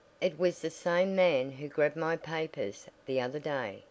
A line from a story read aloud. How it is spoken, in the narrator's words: she said